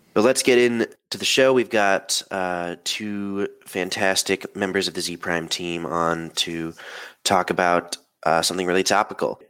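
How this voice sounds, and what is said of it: Rough, sick-sounding voice. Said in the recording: “forgive my voice in this. I was fighting a cold at the time of recording.”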